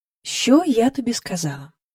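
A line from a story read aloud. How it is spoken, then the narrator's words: Eerily calm question. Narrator (Ukrainian): спитала вона Джейн таким спокійним голосом, аж страшно стало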